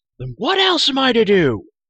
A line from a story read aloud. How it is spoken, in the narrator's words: cried Terran